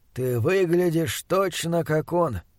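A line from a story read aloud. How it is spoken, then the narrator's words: Soft. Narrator (Russian): мягко сказал Чандлер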